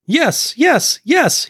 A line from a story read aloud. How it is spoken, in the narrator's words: Heenan yells